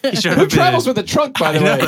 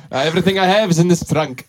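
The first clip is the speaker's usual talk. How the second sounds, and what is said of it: Put-on general European accent. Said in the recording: “That's my Irish accent. It's not as good as some of my other ones. ... It's a great Russian accent ... more of just a European, general yeah. European.”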